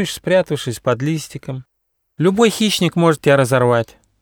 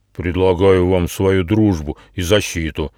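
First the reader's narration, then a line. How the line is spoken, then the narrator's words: Booming. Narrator (Russian): прогудел Атлас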